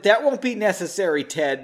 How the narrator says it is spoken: Margot snapped

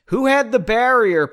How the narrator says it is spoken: yelled back at the party

